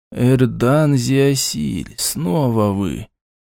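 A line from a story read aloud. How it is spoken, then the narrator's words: Drawled. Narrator (Russian): протянул он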